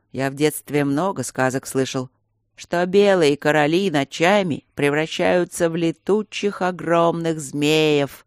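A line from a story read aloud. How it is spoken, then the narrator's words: Sepulchral, hollow voice. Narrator (Russian): загробным голосом произнес Берни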